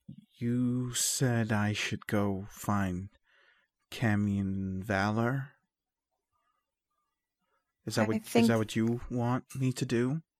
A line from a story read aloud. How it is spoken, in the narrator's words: timidly and says